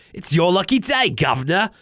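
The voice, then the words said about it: Chimney-sweep Cockney character voice. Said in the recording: “accent kind of slipping in and out ... Almost a little bit chimney sweep.”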